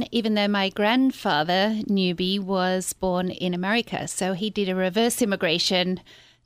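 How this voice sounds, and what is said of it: Australian accent. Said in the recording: “people will obviously hear your accent when you speak. You're from beautiful Australia ... my accent is Australian”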